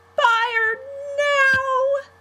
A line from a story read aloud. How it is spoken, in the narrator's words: the twins screamed